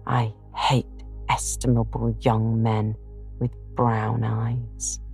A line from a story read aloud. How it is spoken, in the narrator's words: muttering to herself as she slammed the door